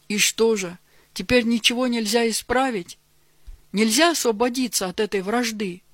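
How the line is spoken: Question after deep sigh. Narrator (Russian): глубоко вздохнув, спросил он

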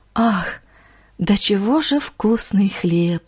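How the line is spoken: Sorrowful sigh. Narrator (Russian): Горестно вздохнула сердобольная женщина

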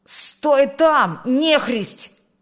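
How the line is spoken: Shout. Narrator (Russian): крикнул он

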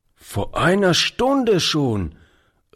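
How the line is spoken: Old man calling. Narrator (German): rief der Alte

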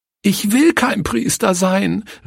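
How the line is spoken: Sobbing cry. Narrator (German): rief schluchzend

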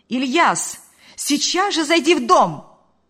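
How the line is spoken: Shout. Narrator (Russian): крикнула она

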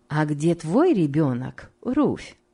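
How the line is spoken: Plain. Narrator (Russian): спросила Рахиль

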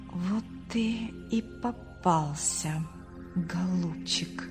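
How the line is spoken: Whisper. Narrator (Russian): прошептал Артур

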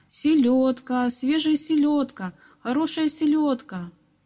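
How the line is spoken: Ringing street cry. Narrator (Russian): крича звонким голосом

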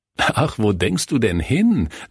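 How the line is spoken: Laughing. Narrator (German): lachte Kurt

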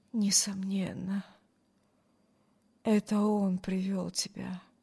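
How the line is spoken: Muttered. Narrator (Russian): пробормотал Брюс

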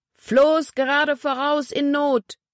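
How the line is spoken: Shouting into speaking-tube. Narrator (German): schrie ins Sprechrohr

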